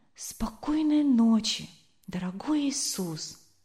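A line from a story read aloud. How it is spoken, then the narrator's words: Whispering. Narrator (Russian): Вилли прошептал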